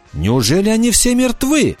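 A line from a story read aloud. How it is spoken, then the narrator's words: Joyful cry. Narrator (Russian): радостно вскричала Анана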